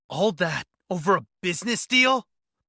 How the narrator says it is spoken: I snapped, bitterness seeping into my tone

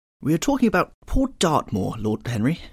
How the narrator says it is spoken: cried, nodding pleasantly

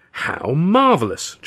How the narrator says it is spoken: Charlie cried

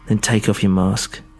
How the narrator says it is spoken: she said, her voice quivering slightly

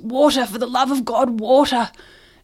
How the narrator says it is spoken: the other man gasps

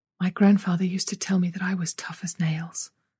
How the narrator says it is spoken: Izzy whispered, her face white

